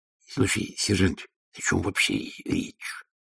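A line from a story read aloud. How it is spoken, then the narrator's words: Whisper. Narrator (Russian): прошептал он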